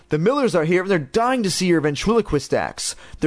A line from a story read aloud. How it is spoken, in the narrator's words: their father shouted up